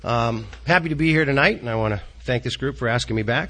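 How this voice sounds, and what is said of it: Stuffy voice, a little out of breath. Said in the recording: “I have a cold ... if I seem a little out of breath”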